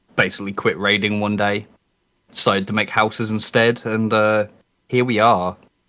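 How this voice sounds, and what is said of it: Speaks with a noticeable accent. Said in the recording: “Despite the accent”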